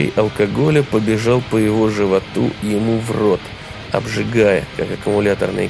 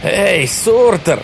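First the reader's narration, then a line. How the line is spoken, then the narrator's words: Shout. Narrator (Russian): крикнул он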